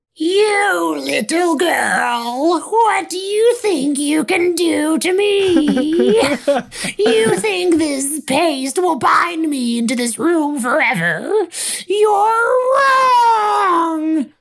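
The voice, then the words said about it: Demonic character voice. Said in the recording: “a demonic voice. ... that demon voice”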